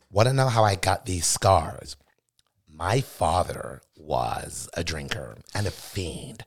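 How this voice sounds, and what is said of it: Joker character voice impression. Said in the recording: “you could do a good Joker voice ... Dark Knight's Joker”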